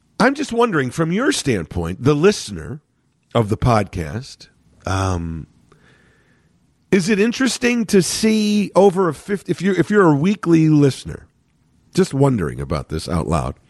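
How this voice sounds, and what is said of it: Slightly nasal, congested voice. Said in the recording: “full blown cold mode, totally clogged ... I'm not as clogged ... my voice is a little nasal. But at least it's not hoarse. At least there's some strength to it”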